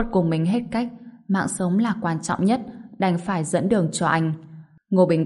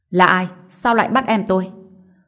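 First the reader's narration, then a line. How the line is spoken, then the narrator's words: Shocked angry stern shout. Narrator (Vietnamese): Khuất Kim Tàm vừa kinh ngạc vừa giận dữ, nghiêm giọng quát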